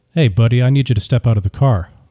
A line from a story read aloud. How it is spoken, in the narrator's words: the officer said